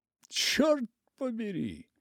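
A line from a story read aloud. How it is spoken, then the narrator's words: Awed exclamation. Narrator (Russian): воскликнул он с благоговейным удивлением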